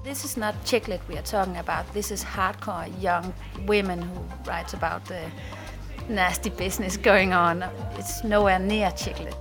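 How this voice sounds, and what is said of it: Danish accent. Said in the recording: “Sounds like a Danish accent to me.”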